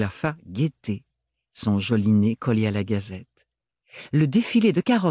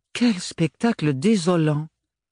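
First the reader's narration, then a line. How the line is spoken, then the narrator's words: Exclaiming. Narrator (French): s'exclama Mélodie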